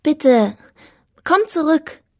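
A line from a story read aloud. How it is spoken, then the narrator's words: Calling out to someone. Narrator (German): rief ich ihm zu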